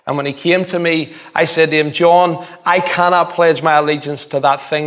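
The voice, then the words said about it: East Belfast Northern Irish accent. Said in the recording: “he heard my accent ... "Where are you from?" I says, "East Belfast."”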